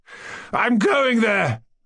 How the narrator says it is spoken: cried

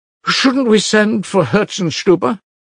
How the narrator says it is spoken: cried Madame Hochlakov

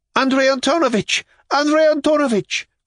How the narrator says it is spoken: cried Yulia Mikhailovna in complete despair

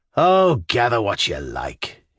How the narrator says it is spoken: he answered in a weary and disgusted voice

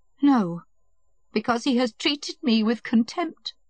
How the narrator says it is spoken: said Kitty in a breaking voice

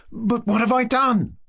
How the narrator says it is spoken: cried Kolya

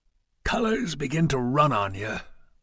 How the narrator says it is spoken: whispered the colonel

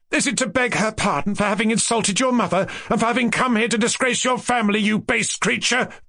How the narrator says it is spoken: Varya cried again, looking with triumphant defiance

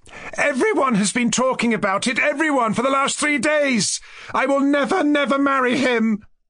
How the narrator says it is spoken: As she cried this, burst into bitter tears

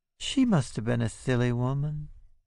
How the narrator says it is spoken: she says dreamily

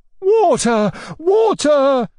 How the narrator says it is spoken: shouted my uncle

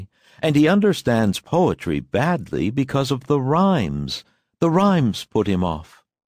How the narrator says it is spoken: she said cheerfully

